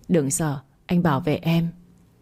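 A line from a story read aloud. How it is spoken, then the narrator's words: Smiling through pain. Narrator (Vietnamese): đau tới mức chảy cả máu ở khóe môi, anh vẫn mỉm cười nói với tôi rằng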